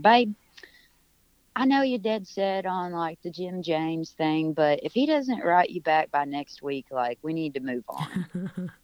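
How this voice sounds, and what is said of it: Put-on British accent. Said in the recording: “he's British ... And that was my British accent, real good.”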